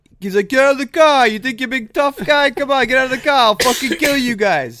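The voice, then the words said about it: Rhode Island mob-style accent. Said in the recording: “the accent ... doing is there's a heavy mob presence in Rhode Island”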